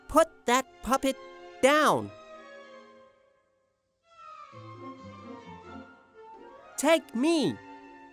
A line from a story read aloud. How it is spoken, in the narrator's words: shouted bravely